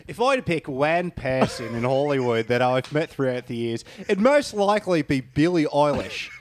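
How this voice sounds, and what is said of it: Rebel Wilson impression, Australian accent. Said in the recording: “in Rebel Wilson's voice ... Australian accent”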